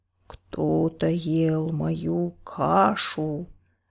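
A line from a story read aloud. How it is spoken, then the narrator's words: Growling bear. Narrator (Russian): зарычал папа-медведь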